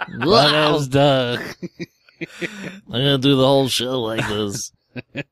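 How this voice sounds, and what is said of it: Munchkin character voice. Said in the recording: “doing the fucking voice ... You're like Munchkin”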